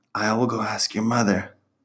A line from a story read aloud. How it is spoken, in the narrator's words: Esperanza whispered to her